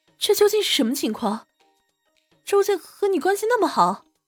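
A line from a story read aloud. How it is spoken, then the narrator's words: Quiet, eager question. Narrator (Chinese): 赵倩忍不住小声的问道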